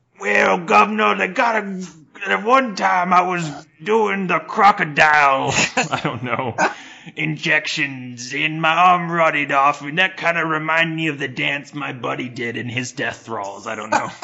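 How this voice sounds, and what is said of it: Put-on Cockney accent. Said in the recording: “every homeless British person has, like, a Cockney accent.”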